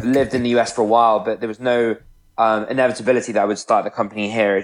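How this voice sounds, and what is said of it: British accent. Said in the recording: “I'm British, as you can probably tell from my accent.”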